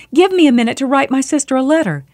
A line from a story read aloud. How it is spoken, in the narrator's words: She cried out